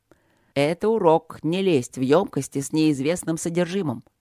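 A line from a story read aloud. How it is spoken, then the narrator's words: Grumbling. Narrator (Russian): проворчал Трот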